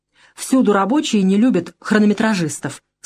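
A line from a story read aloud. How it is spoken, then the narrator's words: Plain. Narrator (Russian): сказал Валентин Валентинович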